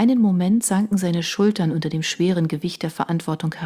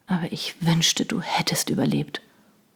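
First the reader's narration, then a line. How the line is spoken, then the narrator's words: Remorseful murmur. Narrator (German): murmelte er zerknirscht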